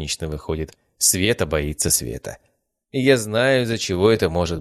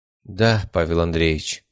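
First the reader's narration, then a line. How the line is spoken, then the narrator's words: Sighing. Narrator (Russian): вздохнула она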